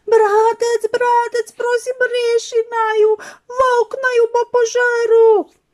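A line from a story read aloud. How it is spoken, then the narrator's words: Terrified screaming, two piglets. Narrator (Slovenian): Prašička sta vsa prestrašena kričala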